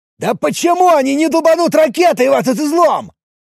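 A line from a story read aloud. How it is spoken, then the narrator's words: Angry shouting while climbing. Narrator (Russian): Скрываясь от надвигающейся грязи, злостно кричал карабкающийся по пожарной лестнице вверх мужчина в форме охранника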